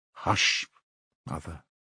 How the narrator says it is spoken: he muttered in confusion

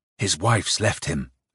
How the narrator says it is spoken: Nikolka whispered in his ear

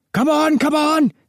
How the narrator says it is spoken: shouted the air raid warden

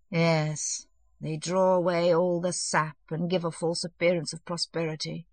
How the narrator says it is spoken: he muttered

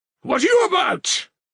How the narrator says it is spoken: he cried

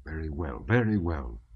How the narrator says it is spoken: muttered the officer threateningly

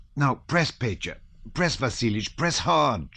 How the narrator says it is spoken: she cried

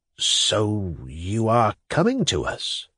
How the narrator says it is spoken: murmured the latter at last

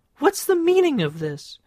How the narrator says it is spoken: Visibly furious, she cried

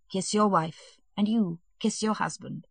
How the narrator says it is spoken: He smiled his kindly smile and said gently

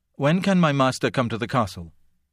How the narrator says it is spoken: Only under pressure did he quickly add

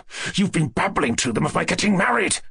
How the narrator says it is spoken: he muttered in a rapid whisper, with a furious face and an angry gleam in his eyes

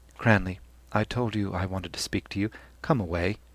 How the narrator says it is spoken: said quietly

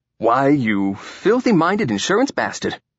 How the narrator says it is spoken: said the newcomer cheerfully

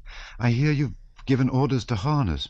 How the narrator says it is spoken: cried, panting

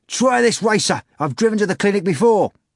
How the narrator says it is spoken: cabbie shouting

